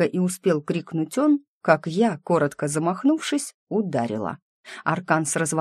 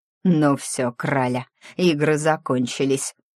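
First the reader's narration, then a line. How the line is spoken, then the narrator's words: Angry, through teeth, bandit. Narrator (Russian): зло процедил третий, снулый бандюган, который до этого не участвовал в разговоре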